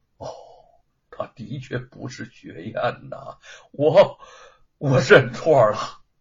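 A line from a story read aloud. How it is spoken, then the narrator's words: Sighing. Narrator (Chinese): 叹了口气说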